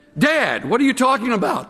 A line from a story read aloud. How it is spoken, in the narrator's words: the son yells